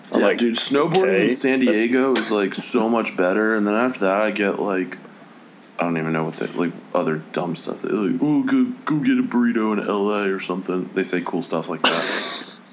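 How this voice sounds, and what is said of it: California surfer dude impression. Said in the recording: “That was a pretty good impersonation ... I'm not from California, even though that impression was ... spot on.”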